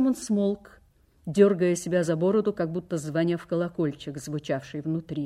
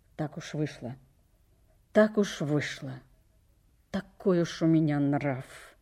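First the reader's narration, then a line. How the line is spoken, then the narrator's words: Muttered. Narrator (Russian): Он пробормотал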